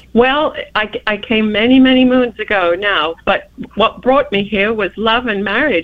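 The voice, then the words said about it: British accent. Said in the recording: “you do have a British accent.”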